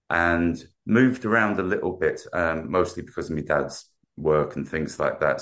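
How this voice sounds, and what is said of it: South London English accent. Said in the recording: “as you can tell by my accent... Grew up in South London”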